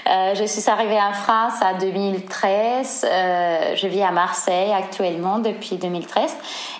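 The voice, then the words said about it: Spanish accent speaking French. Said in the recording (French): “notable mon accent, je suis espagnole, je viens de Séville”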